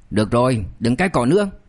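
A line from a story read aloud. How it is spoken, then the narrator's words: Angry. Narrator (Vietnamese): Lý Đức Lâm mới giận dữ nói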